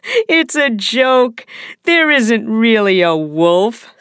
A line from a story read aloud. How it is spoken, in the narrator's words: said the boy, laughing